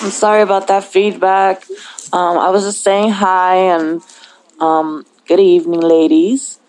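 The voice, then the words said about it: Strained, fading voice. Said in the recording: “My throat hurts from talking almost all day to the last 3 days ... So I'm kind of losing my voice.”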